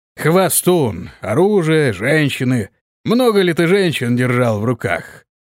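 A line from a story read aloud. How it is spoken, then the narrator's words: Drunken question. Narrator (Russian): пьяным голосом спросил он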